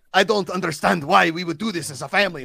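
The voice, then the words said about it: Thick Spanish accent from Spain. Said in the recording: “a very thick Spanish accent, like from Spain”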